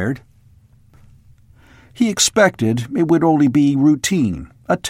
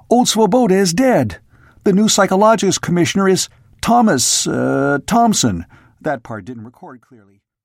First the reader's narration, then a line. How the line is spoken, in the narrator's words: Merdikian blurted